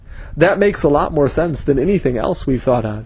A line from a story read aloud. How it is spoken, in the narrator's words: he said